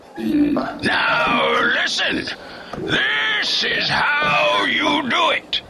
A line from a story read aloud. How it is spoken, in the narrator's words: he yelled